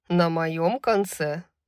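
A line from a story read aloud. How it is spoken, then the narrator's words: Laughing. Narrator (Russian): засмеялся Исайя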